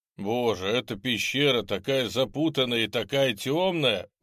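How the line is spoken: Grumbling. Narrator (Russian): ворчал

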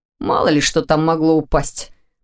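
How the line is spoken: Grumbling. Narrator (Russian): проворчал Ваня

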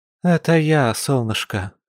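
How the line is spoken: Weary confirmation, mother. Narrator (Russian): устало подтвердила родительница

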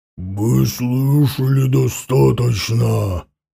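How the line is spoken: Growling. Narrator (Russian): прорычал Шерих

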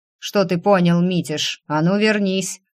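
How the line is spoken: Dragon growling. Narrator (Russian): рыкнул дракон

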